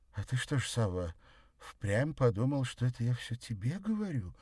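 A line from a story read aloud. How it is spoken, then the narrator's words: Innocent-voiced question. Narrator (Russian): поинтересовалась она невинным голосом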